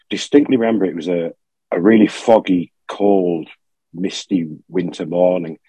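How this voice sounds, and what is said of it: Congested, cold-affected voice. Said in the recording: “excuse my voice ... I'm full of cold”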